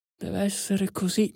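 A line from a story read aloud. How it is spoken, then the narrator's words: Murmuring to oneself. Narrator (Italian): mormorava tra sé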